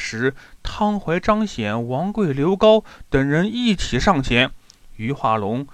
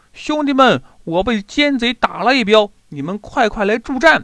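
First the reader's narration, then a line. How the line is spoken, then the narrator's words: Loud shout. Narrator (Chinese): 岳飞大叫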